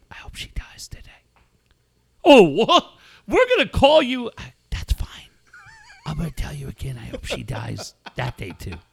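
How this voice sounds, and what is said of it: Creepy low whisper. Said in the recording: “whispering ... you sound like Batman”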